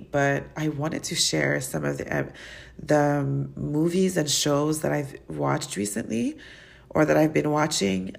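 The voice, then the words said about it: Voice sounds sick, coming down with cold. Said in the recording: “you can hear it in my voice. I feel like I'm getting sick.”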